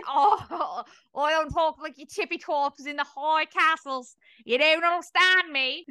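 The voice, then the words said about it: Odd put-on British accent. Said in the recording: “Is that your British accent? ... the one you're speaking has never been heard before ... I think Bluey would get into an argument with you over this accent”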